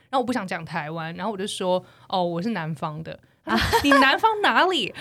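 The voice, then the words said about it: Taiwanese Mandarin accent. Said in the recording (Chinese): “听你的口音，你不是南，你是南方人吧？ ... 听你口音就知道哪是台湾人”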